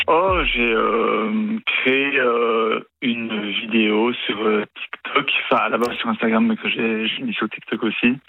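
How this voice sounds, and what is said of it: Slight Belgian French accent. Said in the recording (French): “Vous avez un petit accent, non ? ... je viens de Belgique.”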